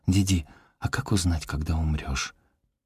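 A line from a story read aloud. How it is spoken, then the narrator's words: Whispered in ear. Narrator (Russian): шепнула на ухо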